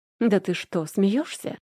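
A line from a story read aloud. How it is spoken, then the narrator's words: Young woman's snort. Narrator (Russian): фыркнула девушка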